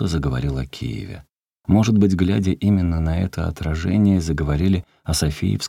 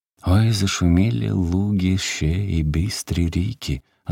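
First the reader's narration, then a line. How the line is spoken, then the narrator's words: Sighing, stern, raised voice. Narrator (Russian): вздохнул и строго сказал он, возвысив голос и заглушив лиру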